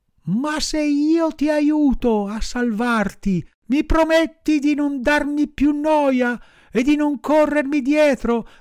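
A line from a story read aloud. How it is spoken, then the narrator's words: Compassionate. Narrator (Italian): il burattino, che in fondo aveva un cuore eccellente, si mosse a compassione e, voltosi al cane, gli disse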